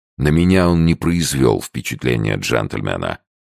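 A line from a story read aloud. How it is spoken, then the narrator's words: Plain. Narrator (Russian): сказал Сомс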